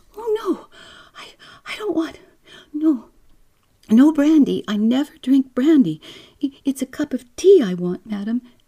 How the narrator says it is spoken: the girl almost cried out

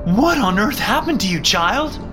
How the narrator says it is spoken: Mom screamed

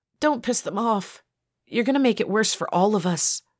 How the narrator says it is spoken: pleaded Barbie

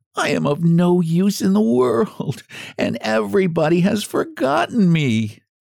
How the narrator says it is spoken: moaned

